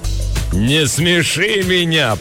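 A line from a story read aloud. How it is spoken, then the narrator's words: Thundering contempt. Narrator (Russian): прогремела она, буквально источая презрение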